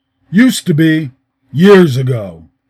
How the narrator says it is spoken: answered gruffly

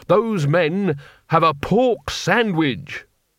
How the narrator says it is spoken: said Rincewind, pointing desperately at his pursuers

